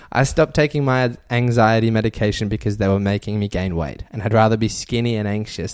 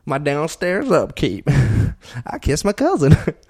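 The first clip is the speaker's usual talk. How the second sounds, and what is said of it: Put-on Southern accent. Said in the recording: “I said that because I was in a southern accent.”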